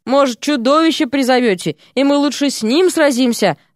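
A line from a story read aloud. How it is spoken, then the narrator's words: Groaning, several voices. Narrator (Russian): стонали они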